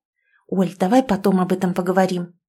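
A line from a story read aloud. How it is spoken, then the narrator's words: Hissed at friend. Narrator (Russian): зашипела я на подругу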